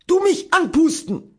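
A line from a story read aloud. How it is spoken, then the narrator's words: Calling out. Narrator (German): rief er und hob drohend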